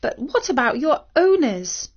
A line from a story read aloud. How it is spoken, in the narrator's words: The dog whimpered again